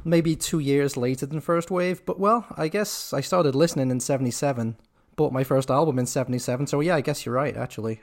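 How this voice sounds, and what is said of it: Mild Liverpool accent. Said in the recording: “your accent ... Liverpool ... you grew up in Liverpool ... accent not so thick anymore”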